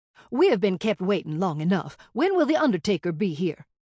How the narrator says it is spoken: snapped

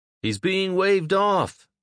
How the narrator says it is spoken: shouted as he ran for cover

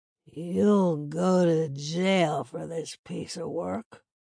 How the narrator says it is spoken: slurred

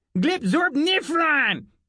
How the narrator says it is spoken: Glubnub shouted

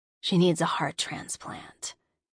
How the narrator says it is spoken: growled quietly

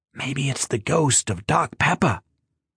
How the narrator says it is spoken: whispered Salty with a playful grin

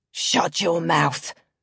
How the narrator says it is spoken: my father had growled, his breath reeking of gin

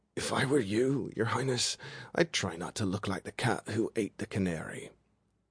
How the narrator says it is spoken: Rune was next, and he muttered

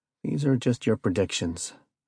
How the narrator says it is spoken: I said calmly

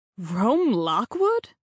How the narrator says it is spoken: Sherry exclaimed in disbelief

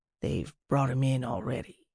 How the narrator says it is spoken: Reddy said softly

